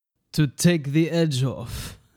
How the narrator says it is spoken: said Diedrich with a chuckle

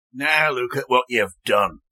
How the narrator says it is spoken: woman spat

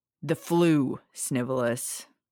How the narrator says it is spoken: Sirius barked

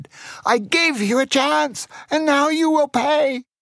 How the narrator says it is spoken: He shouted

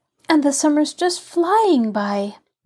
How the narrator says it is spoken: sighed Betty

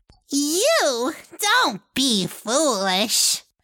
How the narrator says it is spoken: Rabia said with a hateful sneer

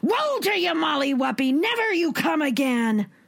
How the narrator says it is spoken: the giant shouted

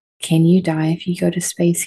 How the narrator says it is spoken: he asked

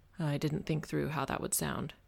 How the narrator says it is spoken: he said, his voice a low murmur

